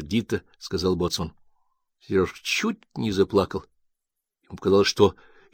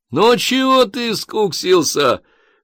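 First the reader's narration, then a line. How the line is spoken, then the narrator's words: Laughing. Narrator (Russian): засмеялся лейтенант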